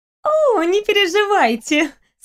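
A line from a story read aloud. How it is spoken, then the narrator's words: Light breezy laugh. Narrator (Russian): снова легким бризом рассмеялась Тамара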